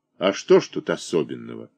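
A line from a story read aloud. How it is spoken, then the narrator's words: Dry. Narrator (Russian): Диомид Пьянов сухо сказал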